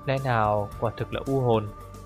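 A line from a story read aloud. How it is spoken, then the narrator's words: Muttering. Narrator (Vietnamese): anh mới lẩm bẩm nói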